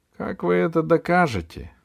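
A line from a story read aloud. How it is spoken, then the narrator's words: Sad. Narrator (Russian): сказал печально Вэри Мэри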